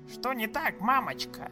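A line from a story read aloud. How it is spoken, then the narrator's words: Rasping creature. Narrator (Russian): Прохрипела тем временем тварь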